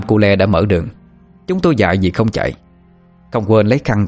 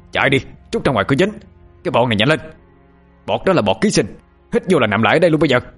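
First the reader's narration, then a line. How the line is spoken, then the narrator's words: Even louder shout. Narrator (Vietnamese): Nam Cô Le còn hét lớn hơn nữa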